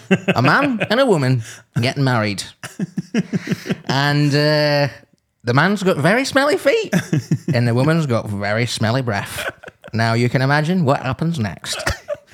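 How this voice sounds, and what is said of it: Imitates another person's voice. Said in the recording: “you do an exquisite impression of his dad doing ... Yeah, here it is again.”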